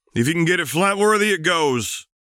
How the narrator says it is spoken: they barked

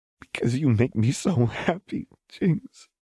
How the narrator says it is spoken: Lux said with a small sob

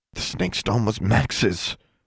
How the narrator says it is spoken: Alexandra hissed

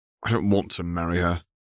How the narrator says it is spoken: he sighed

